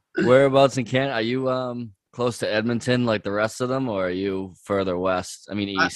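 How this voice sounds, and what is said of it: Strong Boston accent. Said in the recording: “has got the full accent ... Boston”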